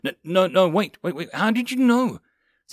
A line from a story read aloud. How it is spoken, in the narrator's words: Caesar yelped in panic as his eyes widened in fear